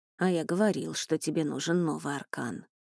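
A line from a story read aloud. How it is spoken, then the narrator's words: Muttering healer. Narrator (Russian): бормотал лекарь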